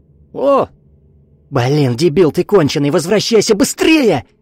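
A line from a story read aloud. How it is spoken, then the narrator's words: Deafening yell. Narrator (Russian): Вика заорала так, что у нее самой заложило уши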